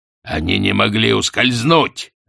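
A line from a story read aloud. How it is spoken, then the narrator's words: Sharp curt. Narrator (Russian): резко бросил Астфгл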